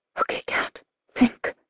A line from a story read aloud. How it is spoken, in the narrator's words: I whisper